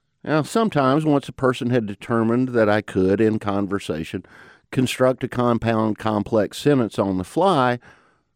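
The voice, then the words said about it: Southern mountain twang accent. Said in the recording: “folks heard my accent ... it's hard to lose a mountain twang like this one”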